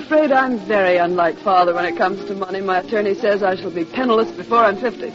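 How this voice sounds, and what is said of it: American accent. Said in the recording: “that's an American accent you have ... I've never tried to lose my accent.”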